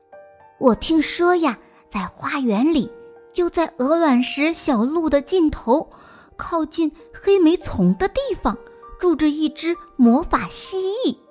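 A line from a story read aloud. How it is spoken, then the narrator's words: Mysterious low whisper. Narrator (Chinese): 他神秘兮兮的低声说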